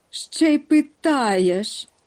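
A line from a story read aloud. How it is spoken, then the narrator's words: Exclaiming together. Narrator (Ukrainian): вигукнули водночас Нюхмумрик і мумітроль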